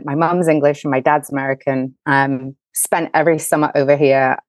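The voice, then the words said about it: English accent. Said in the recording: “as you can tell, I'm English ... I'm actually an American with an English accent.”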